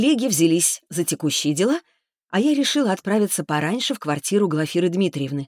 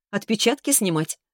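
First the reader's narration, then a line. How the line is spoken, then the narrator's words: Laughing. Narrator (Russian): рассмеялась я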